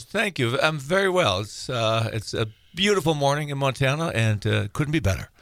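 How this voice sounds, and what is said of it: Slight foreign accent. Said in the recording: “a touch of an accent, that is because ... not from around here”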